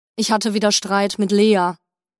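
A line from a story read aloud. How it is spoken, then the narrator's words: Sad more than angry. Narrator (German): erklärte Remo, inzwischen mehr traurig denn wütend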